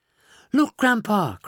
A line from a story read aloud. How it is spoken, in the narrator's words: cried Charlie